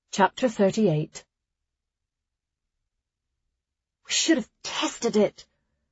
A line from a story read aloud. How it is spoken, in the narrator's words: Clara hissed